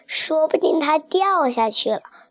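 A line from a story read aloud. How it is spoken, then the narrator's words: Crying. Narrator (Chinese): 猫猫哭着说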